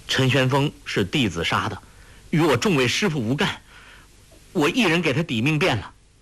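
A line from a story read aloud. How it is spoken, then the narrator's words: Hurried. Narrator (Chinese): 急忙说道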